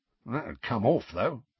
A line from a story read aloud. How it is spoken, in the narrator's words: muttered Mundungus